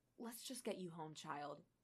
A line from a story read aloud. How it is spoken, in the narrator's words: she muttered